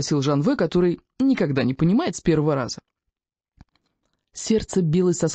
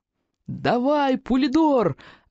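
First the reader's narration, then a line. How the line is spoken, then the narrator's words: Yelling. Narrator (Russian): орал я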